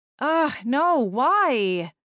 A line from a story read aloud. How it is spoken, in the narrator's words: Maggie groaned